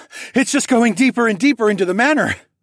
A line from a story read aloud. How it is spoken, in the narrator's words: panted as I picked up steam